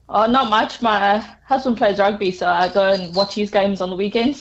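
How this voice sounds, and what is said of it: Noticeable accent. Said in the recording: “Do I pick up an accent? ... Yes.”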